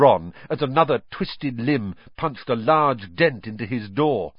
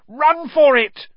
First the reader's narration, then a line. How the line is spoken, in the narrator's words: Ron shouted